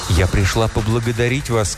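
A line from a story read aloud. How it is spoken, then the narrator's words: Plain. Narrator (Russian): сказала госпожа Элизабет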